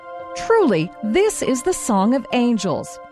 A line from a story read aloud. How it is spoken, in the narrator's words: after a long silence, someone exclaimed